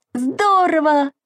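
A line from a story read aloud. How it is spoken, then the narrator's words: Exclaiming. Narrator (Russian): воскликнул Саша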